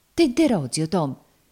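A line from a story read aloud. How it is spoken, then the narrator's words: Woman's sudden exclamation. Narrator (Italian): esclamò a un tratto la donna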